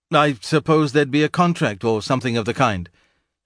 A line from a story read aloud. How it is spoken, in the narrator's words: stammered, blurted out